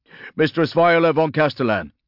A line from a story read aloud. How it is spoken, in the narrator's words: blurted one of the tech priests